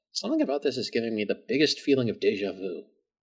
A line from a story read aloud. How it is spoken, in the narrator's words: Kara mutters to herself